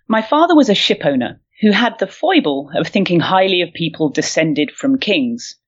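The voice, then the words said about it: Put-on regal kingly accent. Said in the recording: “I shall put on my best uh, kingly accent”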